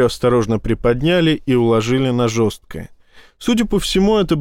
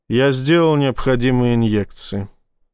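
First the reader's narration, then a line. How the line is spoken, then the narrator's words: Pointedly calm doctor. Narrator (Russian): произнес врач подчеркнуто спокойным голосом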